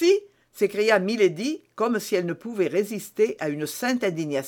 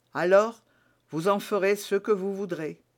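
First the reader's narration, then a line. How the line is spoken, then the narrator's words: Sighing. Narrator (French): ajouta-t-il avec un soupir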